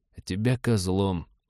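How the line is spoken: Muttered into silent comm. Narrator (Russian): пробормотал в замолкший ком-абордажник

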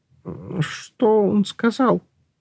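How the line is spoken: Trembling questioning voice. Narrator (Russian): Дрожащим голосом осведомился Шнобби

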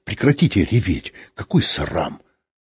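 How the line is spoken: Menacing. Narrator (Russian): грозно сказал

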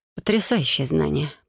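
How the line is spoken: Unsure female mutter. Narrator (Russian): пробормотала я, не зная, как реагировать на слова магистра

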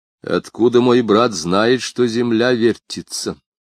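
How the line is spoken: Plain question. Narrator (Russian): спросил индеец

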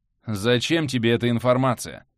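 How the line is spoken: Calm question. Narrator (Russian): спокойно спросил Бихань

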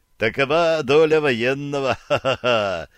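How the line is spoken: Laughing, good-natured. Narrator (Russian): засмеялся добрый чех

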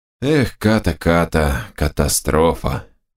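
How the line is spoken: Muttering under breath. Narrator (Russian): бормотал под нос Док

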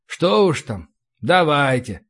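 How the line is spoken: Sighing. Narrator (Russian): вздохнул я

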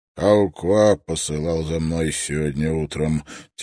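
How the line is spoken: Heavy voice. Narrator (Russian): тяжелым голосом добавил Маус

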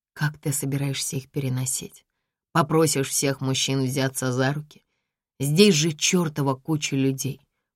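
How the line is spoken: Close low mutter. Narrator (Russian): бормочу я, наклоняясь к брату

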